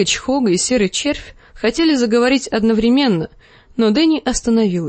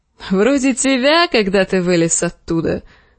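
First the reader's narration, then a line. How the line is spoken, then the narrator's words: Laughing. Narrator (Russian): засмеялся Дарио Нахарис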